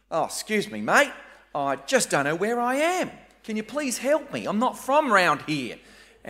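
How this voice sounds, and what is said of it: Very broad Australian accent. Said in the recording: “I did use the very broad Australian accent once”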